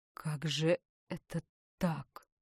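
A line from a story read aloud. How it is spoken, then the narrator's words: Barely audible. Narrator (Russian): Тихо, так тихо, что даже она едва-едва разобрала его слова, проговорил он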